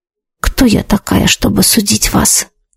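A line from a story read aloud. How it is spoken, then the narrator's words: Whispered reply. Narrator (Russian): прошептала я в ответ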